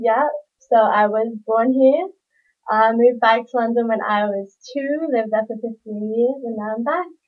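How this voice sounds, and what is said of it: London English accent. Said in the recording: “you got some London ties, eh? ... I fuck with the accent, always been a fan.”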